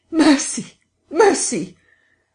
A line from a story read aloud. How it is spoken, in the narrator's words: that died down swiftly to a sound like choking